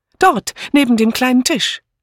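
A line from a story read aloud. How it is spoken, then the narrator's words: Breathless. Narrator (German): sagte Miss Banner atemlos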